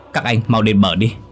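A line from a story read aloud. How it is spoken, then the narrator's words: Loud yell. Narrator (Vietnamese): Đức hét lớn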